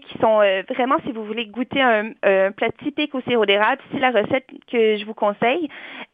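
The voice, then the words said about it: Speaker's own regional accent. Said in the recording (French): “mon magnifique accent”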